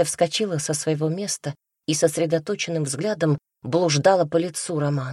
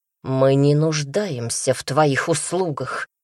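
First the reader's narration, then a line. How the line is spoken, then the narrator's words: Growled through teeth. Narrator (Russian): прорычал сквозь зубы Даниил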